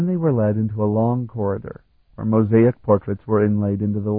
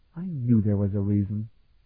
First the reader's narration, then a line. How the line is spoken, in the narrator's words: the little princess murmured